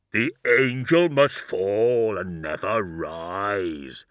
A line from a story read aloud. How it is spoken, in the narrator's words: intoned Cabanda